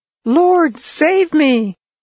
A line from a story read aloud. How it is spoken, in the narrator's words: Peter cried out